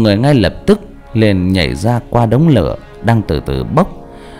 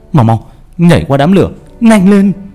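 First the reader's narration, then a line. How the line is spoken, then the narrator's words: Shouting. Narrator (Vietnamese): Trọng hét lên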